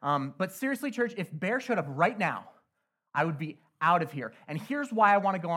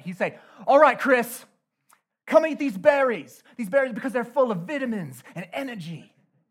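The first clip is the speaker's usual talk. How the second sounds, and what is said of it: Poor put-on British accent. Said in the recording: “forgive my terrible British accent, but I'm going to try it”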